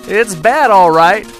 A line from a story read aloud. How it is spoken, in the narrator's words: Joe yelled to Jack